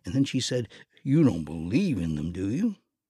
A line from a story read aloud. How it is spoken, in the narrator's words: Johnny scoffed